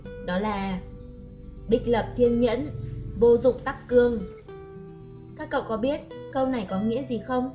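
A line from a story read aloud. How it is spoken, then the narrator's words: Smiling. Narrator (Vietnamese): Bạch Ký Minh mỉm cười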